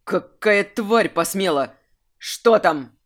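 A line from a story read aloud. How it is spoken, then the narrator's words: Barked. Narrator (Russian): рявкнул Айрунг, прерывая поток ругани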